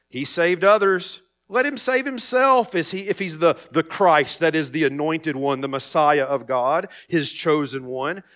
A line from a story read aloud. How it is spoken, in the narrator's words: the rulers scoffed at Jesus, saying